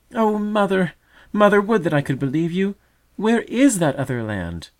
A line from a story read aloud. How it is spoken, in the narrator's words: Thus cried the distressed doubter in the nest